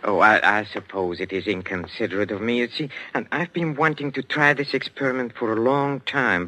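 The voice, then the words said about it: Foreign, German-sounding accent. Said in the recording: “Bad enough you're speaking with that accent. They'll probably think we're Germans as it is.”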